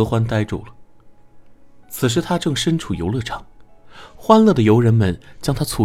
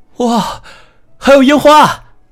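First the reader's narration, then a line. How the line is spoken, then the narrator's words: Shouting. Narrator (Chinese): 莫泽冲着自己大叫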